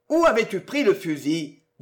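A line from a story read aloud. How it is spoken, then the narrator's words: Plain. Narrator (French): demanda le policier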